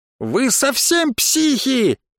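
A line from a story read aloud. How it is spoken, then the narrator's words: Shouting. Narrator (Russian): закричала девушка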